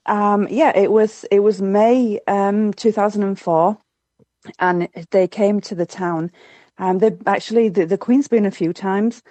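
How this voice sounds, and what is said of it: Yorkshire English accent. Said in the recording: “I love the combination of your accent ... born and bred in Yorkshire in the UK”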